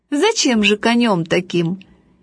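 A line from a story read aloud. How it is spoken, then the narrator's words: Cheerful laughing father. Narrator (Russian): отец очень веселый сказал, смеясь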